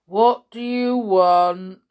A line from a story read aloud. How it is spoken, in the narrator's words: He asked gloomily